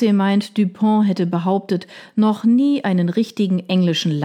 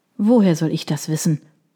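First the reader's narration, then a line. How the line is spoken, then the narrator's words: Grumbling. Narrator (German): brummte Sir William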